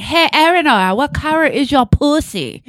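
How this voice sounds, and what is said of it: Imitation of a man's accent. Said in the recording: “doing the accent... I'm doing him. He's doing that... I'm not doing it. He sounds like that.”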